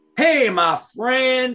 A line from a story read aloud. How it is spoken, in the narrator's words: exclaimed the man